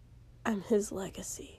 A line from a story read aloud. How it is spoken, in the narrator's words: said quietly